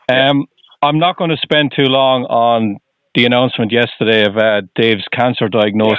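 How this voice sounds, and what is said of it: Irish accent. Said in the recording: “I'm originally from Ireland. ... Tell by the accent.”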